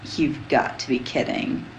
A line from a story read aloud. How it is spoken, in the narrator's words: he moaned